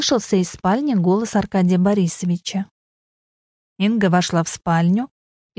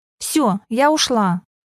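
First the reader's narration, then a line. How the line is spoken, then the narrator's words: Shouting. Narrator (Russian): крикнула она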